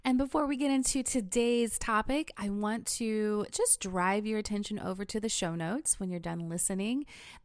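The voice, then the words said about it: Stuffy, congested voice. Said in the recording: “hear in my voice ... I'm battling some kind of allergy thing. So this episode is maybe not as soothing as my voice usually is. I'm a little stuffy.”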